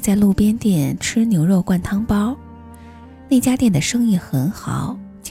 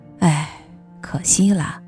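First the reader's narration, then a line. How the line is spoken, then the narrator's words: Sighing. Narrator (Chinese): 老贝叹了一口气说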